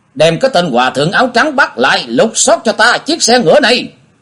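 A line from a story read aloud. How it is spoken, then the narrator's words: Loud shout. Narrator (Vietnamese): giáo quan hét lớn một tiếng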